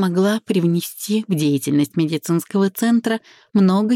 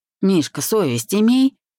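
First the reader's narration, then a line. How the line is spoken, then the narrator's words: Frowning husband's grumble. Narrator (Russian): Сведя брови на переносице, проворчал муж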